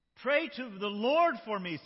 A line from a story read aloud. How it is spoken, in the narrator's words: Simon exclaimed